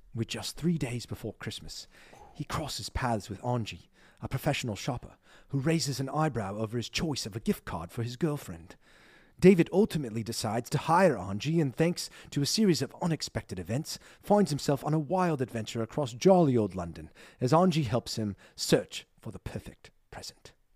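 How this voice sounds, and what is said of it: Put-on British accent, movie-trailer voiceover. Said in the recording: “your accent was ... top notch. Top notch. ... the voiceover they use to promote that film ... only in British accents”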